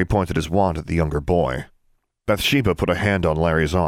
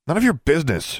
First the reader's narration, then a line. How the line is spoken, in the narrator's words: snapped